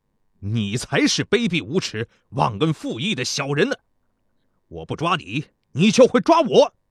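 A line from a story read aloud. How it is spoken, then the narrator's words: Angry. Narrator (Chinese): 公子交师怒道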